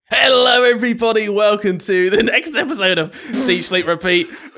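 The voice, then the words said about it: Imitates another person's voice. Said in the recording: “I want to do an impression of you”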